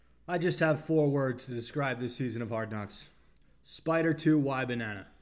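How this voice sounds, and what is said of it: Usual voice. Nothing is said of it.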